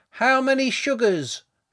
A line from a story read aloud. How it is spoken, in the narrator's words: shouted Liam from the mouldy kitchen